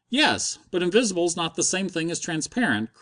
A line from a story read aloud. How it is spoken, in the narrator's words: cried Stopford